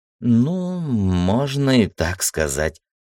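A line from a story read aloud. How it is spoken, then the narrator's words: Doubtful drawl. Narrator (Russian): сомнением протянула Ира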